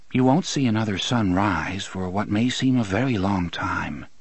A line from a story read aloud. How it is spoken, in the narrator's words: the man in black said softly